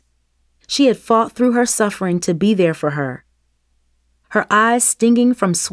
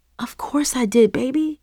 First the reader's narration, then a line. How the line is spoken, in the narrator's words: Mom whispered